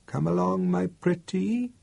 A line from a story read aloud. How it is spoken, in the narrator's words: whispered in a soft, wheedling voice